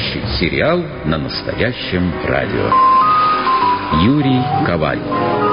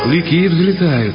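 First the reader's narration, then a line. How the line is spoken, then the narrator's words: Joyful captain announcing. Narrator (Russian): радостно сообщил капитан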